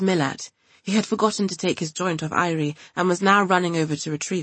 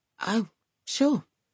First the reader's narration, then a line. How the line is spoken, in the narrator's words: sighed Irie